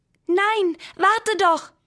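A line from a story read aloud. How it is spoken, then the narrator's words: Calling out. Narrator (German): rief der Bleistift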